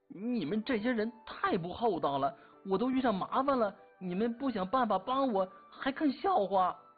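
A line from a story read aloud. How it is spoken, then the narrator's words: Angry. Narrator (Chinese): 洛兴国红着脸怒目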